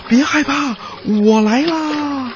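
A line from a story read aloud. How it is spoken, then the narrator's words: Loud donkey cry. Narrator (Chinese): 小驴大叫了一声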